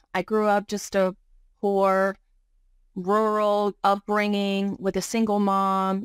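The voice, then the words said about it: Virginia accent. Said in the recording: “you already heard my accent. ... I'm originally from Virginia.”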